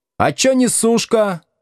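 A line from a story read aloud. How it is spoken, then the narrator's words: Shout from the back rows. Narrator (Russian): крикнули с задних парт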